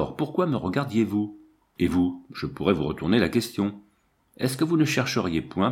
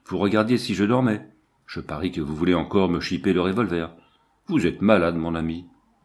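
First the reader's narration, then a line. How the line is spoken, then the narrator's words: Exclaimed. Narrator (French): s'écria-t-il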